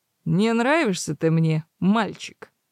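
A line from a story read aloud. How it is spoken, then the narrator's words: Dismissive snort. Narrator (Russian): хмыкнул Фалька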